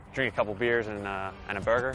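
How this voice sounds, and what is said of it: Attempted American accent. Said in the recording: “your American accent ... hit us with the American accent”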